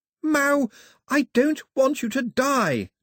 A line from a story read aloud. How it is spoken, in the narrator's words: shouted